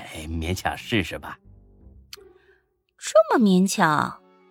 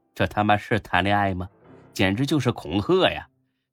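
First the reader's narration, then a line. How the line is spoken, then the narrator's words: Wry laugh. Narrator (Chinese): 才哥苦笑一声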